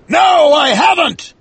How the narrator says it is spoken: shouted Ahab

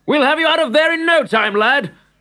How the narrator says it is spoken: shouted the man

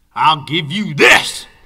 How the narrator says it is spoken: shouted Beauregard angrily

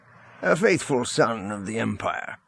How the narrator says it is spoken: Rogris said, his tone jovial

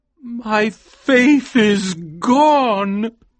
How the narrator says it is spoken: he cried

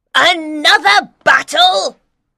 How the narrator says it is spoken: cried an angry woman

